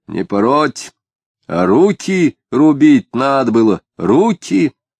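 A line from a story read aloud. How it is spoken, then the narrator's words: Harsh, loud, coughing. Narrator (Russian): речь Пыльникова покрылась надсадным кашлем и суровой, громко сказанной фразой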